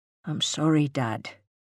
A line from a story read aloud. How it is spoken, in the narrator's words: he mumbled